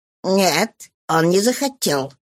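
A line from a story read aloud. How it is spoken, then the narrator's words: Rude, curt, caught off guard. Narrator (Russian): грубо отрезал журналист, захваченный врасплох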